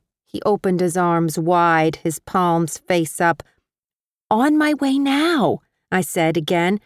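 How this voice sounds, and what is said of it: Usual voice. Nothing is said of it.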